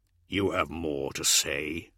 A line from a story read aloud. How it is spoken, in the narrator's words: growled Dorn